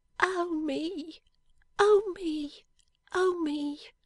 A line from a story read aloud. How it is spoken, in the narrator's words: the little creature moaned